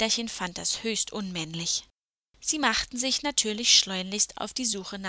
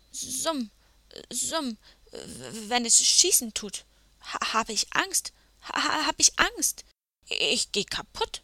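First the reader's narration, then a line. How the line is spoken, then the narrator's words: Stammering. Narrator (German): stotterte der edle Ritter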